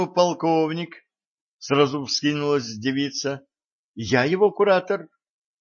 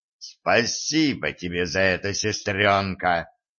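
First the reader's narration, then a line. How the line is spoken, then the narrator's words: Growl. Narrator (Russian): прорычал Стас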